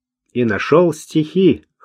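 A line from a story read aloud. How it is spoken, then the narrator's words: Skeptical snort. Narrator (Russian): хмыкнул Луазель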